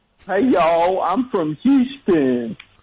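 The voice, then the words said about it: Impression of a Houston local. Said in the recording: “do an impression of the average person from Houston”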